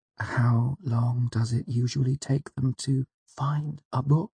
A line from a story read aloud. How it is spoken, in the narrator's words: I asked quietly